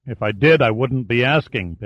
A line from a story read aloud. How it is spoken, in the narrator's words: Pitt growled